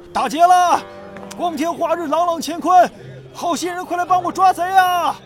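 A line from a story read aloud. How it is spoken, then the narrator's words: Loud shouting. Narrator (Chinese): 谢都市大喊大叫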